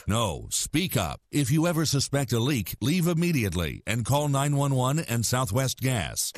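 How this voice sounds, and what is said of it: Deep narrator voice. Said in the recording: “Deep Voice Narrator”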